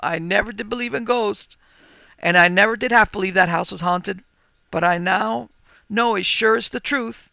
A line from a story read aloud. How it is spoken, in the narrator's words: exclaimed